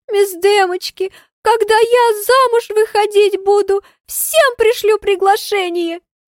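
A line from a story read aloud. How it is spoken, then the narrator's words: Smiling through sobs. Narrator (Russian): Сквозь рыдание улыбается креолка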